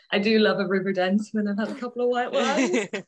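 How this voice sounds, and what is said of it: Irish accent, somewhat South African-sounding. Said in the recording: “I am noticing a little bit of an accent there ... I am Irish ... they either know I'm Irish straight away or they think I'm South African ... I can kind of understand the South African from the accent ... my accent is probably a bit weird”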